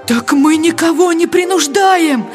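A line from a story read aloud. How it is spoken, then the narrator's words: Pleading. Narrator (Russian): взмолился голос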